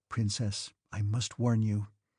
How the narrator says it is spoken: she added, lowering her voice and evidently listening to herself with pleasure and speaking with exaggerated grassement

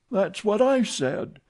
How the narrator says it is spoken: exclaimed the old lady

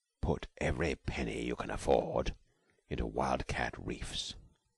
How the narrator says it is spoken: he sank his voice to a compelling whisper

